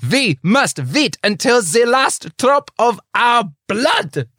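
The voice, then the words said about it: Put-on German accent. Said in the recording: “I said I wouldn't do the German accent again. I lied, though, because I'm about to.”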